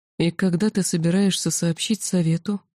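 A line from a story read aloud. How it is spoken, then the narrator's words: Quiet question, ancient speaker. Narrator (Russian): тихо спросил древний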